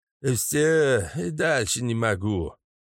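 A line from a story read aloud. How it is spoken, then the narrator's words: Breathless exhale. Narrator (Russian): Выдохнул водитель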